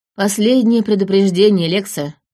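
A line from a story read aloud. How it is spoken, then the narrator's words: Unexpectedly calm. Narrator (Russian): неожиданно спокойно произнес он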